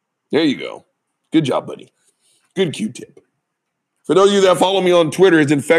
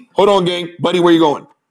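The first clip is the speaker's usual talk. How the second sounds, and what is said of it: Yelling. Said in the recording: “I love it how I'm yelling at a dog who can't hear me”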